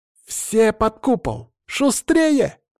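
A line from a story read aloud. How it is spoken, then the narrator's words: Loud shout. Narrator (Russian): Лидия во весь голос крикнула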